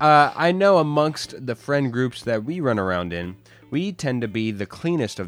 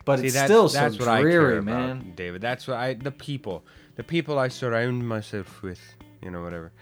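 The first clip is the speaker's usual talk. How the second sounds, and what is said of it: Bad put-on Irish accent. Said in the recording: “just a spur of the mill, horrible Irish accent”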